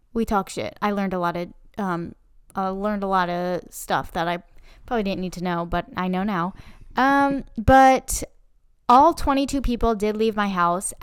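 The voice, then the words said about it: Sick-sounding, altered voice. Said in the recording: “As you may be able to hear to the listeners out there, my voice is a little different this week. It's because one of those motherfuckers got me sick.”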